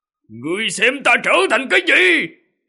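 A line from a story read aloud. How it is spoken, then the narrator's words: Roaring. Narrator (Vietnamese): Ô Cổ gào một tiếng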